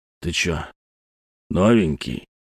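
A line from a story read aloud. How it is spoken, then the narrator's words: Low husky voice. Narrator (Russian): Голос низкий, с хрипотцой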